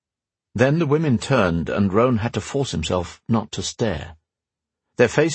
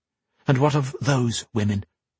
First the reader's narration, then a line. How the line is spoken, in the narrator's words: Gwen whispered